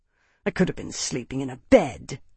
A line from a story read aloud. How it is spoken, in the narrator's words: Brensis snarled